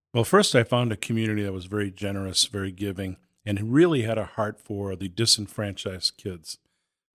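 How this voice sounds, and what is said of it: New England accent. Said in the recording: “It's taken me years to try to break this New England accent, and I fail many times.”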